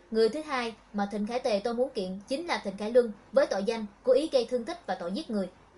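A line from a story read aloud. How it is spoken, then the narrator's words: Cold anger. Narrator (Vietnamese): Ánh mắt của Thịnh Khải Tề toát lên sự lạnh lùng giận dữ, anh nói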